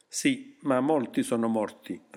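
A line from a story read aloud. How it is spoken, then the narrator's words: Plain. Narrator (Italian): rispose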